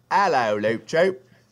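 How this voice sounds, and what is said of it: Put-on Cockney-like British accent. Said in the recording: “love the accent. ... Is that Cockney? Is that what that is?”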